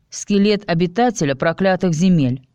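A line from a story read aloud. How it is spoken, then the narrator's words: Pointedly cold. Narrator (Russian): подчеркнуто холодно ответила Алиса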